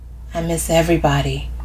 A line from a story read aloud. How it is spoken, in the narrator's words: Connie whispers